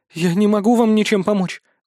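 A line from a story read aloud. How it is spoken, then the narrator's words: Small trembling voice. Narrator (Russian): дрожащим голоском отвечает Мила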